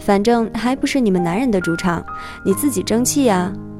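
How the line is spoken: Smiling. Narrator (Chinese): 他就笑笑说

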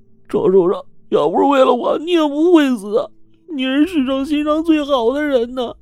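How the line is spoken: Loud wailing. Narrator (Chinese): 小兔子是大声的嚎哭啊，说

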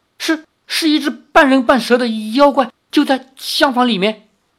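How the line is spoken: Trembling maidservant. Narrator (Chinese): 婢女颤声说

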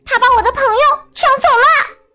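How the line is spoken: Loud shout. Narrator (Chinese): 克劳福大喊

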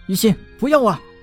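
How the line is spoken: Anxious shouting from outside. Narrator (Chinese): 窗外的陈南 焦急地大喊道

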